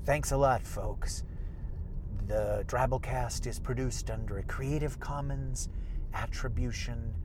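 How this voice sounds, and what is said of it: Impression of Christian Slater. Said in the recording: “my Norm Sherman impression, but it was actually me doing an impression of Christian Slater, who is usually just a young Jack Nicholson”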